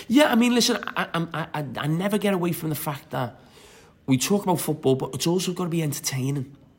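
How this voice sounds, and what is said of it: Distinctive regional British accent. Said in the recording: “they would change your voice... you would never have that accent... but now it's so distinctive and great”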